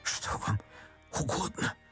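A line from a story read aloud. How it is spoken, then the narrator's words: Whispering. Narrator (Russian): прошептал отец Федор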